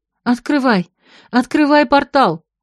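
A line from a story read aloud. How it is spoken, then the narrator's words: Sharp cry. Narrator (Russian): вскрикнула Марго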